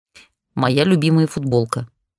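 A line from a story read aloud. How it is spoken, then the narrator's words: Grumbled. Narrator (Russian): буркнула я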